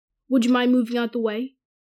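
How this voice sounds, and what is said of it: Cold drawling voice of Malfoy. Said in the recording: “Malfoy's cold drawl”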